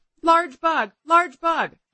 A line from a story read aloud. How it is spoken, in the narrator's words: I yelled to my fiancé